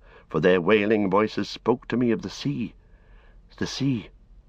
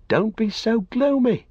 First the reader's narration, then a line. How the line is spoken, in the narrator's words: cried Pippin